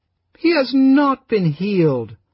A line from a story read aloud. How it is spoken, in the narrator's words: the widow Judith cried out in dolorous tones